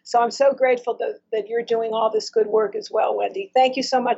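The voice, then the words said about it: Strained, impaired-sounding voice. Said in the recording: “Excuse my voice. ... There's a lot of smoke and there are a lot of fires”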